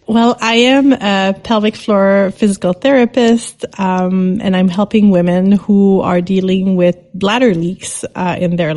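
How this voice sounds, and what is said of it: Accented English speaker. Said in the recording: “you can hear her cool accent”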